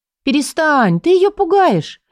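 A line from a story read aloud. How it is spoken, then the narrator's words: Exclaim. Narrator (Russian): воскликнула я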